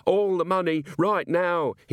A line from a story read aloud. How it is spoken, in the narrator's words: screamed